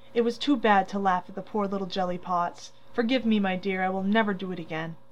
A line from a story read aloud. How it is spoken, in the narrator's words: saying tenderly